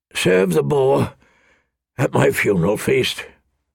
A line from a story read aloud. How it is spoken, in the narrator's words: Robert rasped